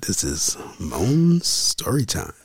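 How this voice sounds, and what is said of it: Sultry, seductive voice. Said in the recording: “Let me give you my sexy voice”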